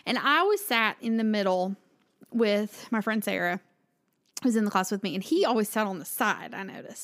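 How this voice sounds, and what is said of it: Southern American accent. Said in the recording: “he also loved the way I talked ... Southern things ... he loved my accent”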